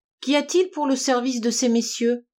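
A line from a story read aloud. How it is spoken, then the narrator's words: Plain. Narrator (French): demanda-t-elle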